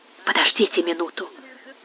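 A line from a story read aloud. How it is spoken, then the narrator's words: Whisper. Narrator (Russian): шепнул он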